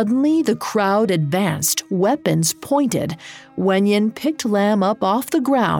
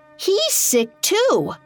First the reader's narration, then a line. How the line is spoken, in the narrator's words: A villager cried out